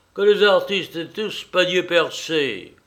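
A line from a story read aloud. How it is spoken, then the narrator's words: Father shouting. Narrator (French): cria le père Vervel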